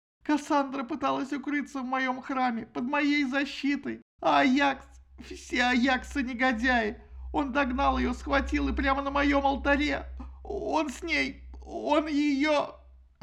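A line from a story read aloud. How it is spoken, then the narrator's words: Convulsive sobbing. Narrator (Russian): Афина зашлась в рыдании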